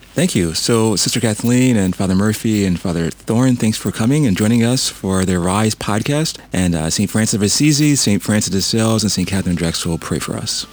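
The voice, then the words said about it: Polished radio announcer voice. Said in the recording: “You got like a radio voice.”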